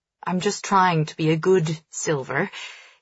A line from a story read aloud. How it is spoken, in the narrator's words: he says dryly